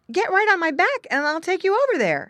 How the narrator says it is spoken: said eagerly

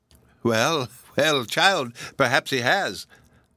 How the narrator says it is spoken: said Hepzibah with a sad, hollow laugh

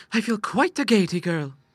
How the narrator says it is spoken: she cried

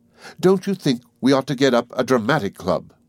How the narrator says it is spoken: she cried to Pollock

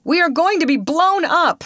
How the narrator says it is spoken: exclaimed a big man

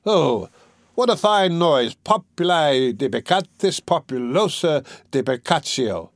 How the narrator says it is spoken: the scholar cried

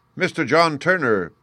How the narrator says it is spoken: cried the hotel waiter

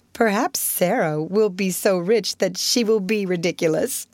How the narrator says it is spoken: giggled Jessie

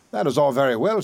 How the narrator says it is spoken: said he

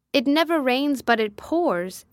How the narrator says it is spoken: exclaimed

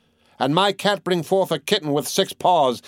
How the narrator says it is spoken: yelped an old crone

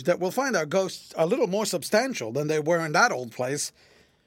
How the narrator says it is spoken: laughed George

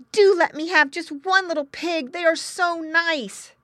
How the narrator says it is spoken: exclaimed the boy

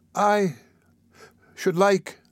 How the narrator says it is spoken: faltered the child

